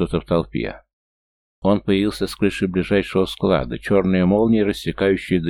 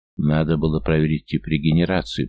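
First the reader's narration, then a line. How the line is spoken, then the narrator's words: Grumbled. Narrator (Russian): проворчал Кайта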